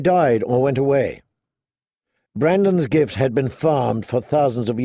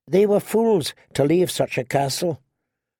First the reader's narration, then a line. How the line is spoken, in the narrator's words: said Ygritte